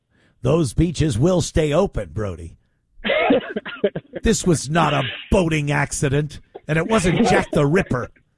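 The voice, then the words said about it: Impression of the Mayor of Amity. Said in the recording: “great Mayor of Amity impression”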